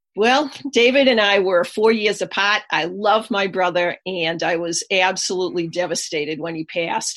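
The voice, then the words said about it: Boston accent. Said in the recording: “You'll hear the Boston accent”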